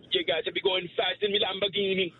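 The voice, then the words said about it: Put-on Jamaican accent. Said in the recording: “A Jamaican accent. ... Only Jamaican. ... That was good. Perfect.”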